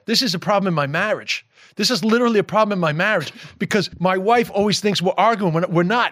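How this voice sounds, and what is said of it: New York accent. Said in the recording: “that's my New York accent... It's just the way that I talk”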